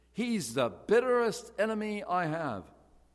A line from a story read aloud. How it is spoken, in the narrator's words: exclaimed the old preacher